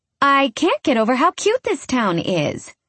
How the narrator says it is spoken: I chirp

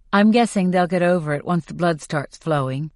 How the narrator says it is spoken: I say flatly

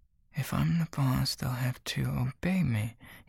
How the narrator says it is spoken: he mutters to himself

